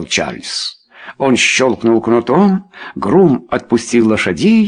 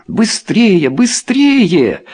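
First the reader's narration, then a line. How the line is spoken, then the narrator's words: Shouted. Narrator (Russian): закричала она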